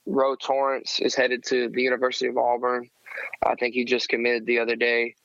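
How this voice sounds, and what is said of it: Hoarse, worn-out voice. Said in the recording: “losing my voice from the game”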